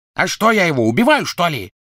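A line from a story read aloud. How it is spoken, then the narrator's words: Barked. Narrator (Russian): рявкнул Крэб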